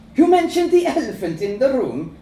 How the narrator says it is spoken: she says, laughing

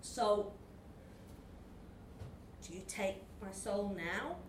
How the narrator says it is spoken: He asked nervously

